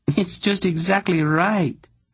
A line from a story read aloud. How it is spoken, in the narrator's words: Ginedra said happily